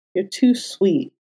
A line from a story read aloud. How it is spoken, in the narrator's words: Foggy muttered, sniffling